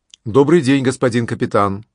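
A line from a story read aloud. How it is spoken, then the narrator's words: Friendly yet commanding. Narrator (Russian): произнес он, как умеют только хорошие командиры, одновременно и приветливым, и начальственным голосом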